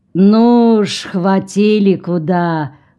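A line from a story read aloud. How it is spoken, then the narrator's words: Drawn-out drawl. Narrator (Russian): протянул Карпентер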